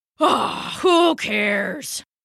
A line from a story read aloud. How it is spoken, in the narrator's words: yawned the tiger